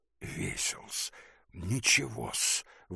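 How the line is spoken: Whispered objection. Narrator (Russian): возразил Гедеоновский шепотом

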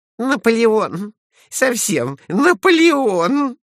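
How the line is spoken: Loud laughter. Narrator (Russian): захохотала Глафира Семеновна

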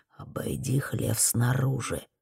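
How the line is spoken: Whispered. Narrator (Russian): прошептал

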